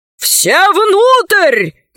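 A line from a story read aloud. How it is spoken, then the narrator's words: Shouted admiral. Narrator (Russian): закричал адмирал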